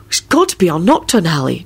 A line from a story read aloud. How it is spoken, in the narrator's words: George said soothingly